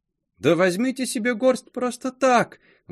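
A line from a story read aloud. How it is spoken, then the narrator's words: Young woman's exclamation. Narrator (Russian): воскликнула прелестная смуглянка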